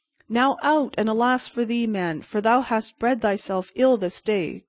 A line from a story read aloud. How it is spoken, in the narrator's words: cried the beggar